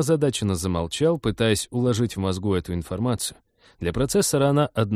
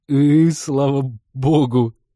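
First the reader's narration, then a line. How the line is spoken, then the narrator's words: Strained words through laughter. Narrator (Russian): кое-как выдавил пилот и снова забился в смеховых конвульсиях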